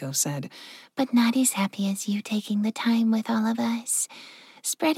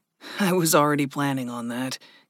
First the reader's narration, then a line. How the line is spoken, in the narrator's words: Gregory chuckled